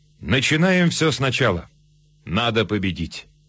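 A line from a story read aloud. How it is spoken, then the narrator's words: Almost calm. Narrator (Russian): Почти спокойно фельдмаршал сказал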